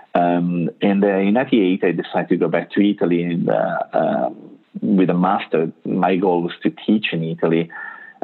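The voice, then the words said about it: Italian accent. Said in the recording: “As you can tell from my accent, I'm not from the U.S. I'm Italian.”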